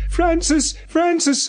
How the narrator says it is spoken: I cried

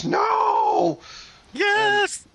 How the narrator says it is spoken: Electro shrieks

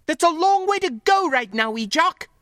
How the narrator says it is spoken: she snapped back

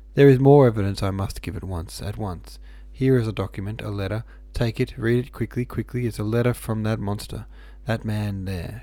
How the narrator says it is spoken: Suddenly she cried

